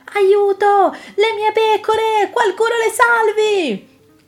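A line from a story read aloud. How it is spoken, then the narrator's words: Desperate shepherd shouting. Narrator (Italian): un pastore gridava disperato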